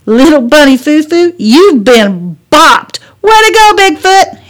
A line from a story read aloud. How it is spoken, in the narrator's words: Hannah hollered